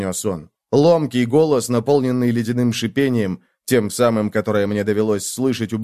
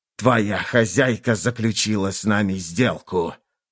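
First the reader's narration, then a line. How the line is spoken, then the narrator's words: Hissing. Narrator (Russian): прошипел он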